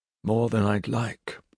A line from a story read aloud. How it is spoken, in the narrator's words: Gentle replied wearily